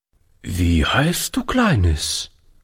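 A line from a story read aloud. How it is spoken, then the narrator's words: Hesitant question. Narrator (German): fragte Oliver zögernd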